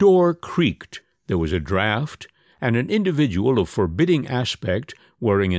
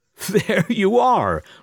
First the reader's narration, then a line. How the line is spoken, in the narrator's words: laughed the first-class passenger